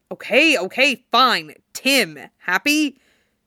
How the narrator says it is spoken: Jason snaps

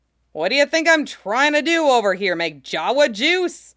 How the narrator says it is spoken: He shouted back

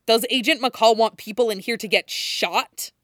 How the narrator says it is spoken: Matt snaps

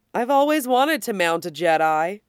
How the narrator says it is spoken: Thorn says merrily

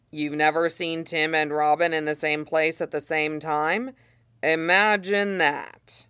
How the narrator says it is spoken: Red Hood had said flatly

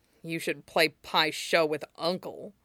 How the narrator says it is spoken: Zuko muttered

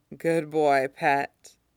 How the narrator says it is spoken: Tim murmurs, from 1,100 miles away

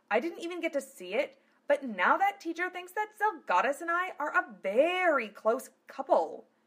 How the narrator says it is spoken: Phileas cried

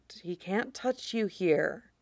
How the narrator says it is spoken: Quinlan whispered

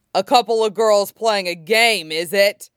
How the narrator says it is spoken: He laughed

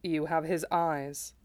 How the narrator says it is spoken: Sephiroth said quietly

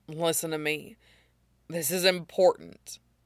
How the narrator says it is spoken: he grit out past the lump in his throat, voice close to cracking

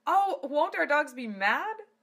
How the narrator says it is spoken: She giggled

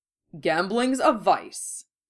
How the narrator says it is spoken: said Otori

